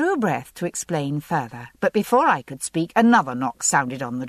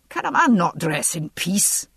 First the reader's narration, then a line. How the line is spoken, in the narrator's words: Jamie demanded irritably